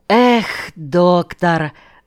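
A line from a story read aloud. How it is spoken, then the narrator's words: Sighed. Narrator (Russian): вздохнул Лильи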